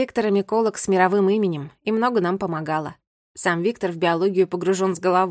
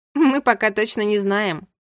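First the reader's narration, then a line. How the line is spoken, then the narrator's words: Laughing. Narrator (Russian): рассмеялась Катя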